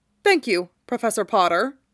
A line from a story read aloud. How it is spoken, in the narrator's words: Draco said stiffly